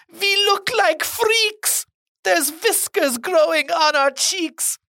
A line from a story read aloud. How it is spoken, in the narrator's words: Another shouts